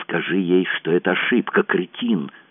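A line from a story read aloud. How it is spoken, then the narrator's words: Hissing. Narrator (Russian): прошипела она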